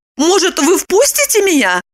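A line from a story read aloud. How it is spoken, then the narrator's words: Pleading. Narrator (Russian): взмолилась Липочка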